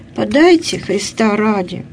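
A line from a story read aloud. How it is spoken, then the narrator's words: Strained, unaccustomed utterance. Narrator (Russian): Сережа робко выдавил для себя непривычное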